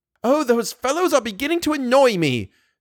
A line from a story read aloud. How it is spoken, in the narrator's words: shouted Firmin Richard